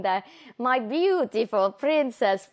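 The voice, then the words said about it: Poor put-on Russian accent. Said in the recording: “my horrible Russian accent”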